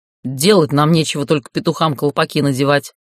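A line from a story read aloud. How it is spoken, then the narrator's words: Menacing snort. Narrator (Russian): Грозно фыркнул командир гарнизона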